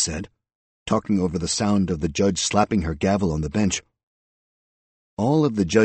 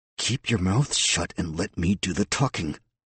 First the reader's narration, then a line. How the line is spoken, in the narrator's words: the public defender said through clenched teeth